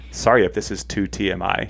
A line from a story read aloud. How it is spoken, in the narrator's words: she says